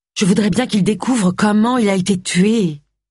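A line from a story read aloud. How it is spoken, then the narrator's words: Moaning. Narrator (French): gémit Agatha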